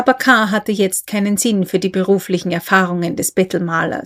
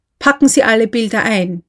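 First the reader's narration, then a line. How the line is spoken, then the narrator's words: Calling out, interrupting. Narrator (German): rief er, dem Maler in die Rede fallend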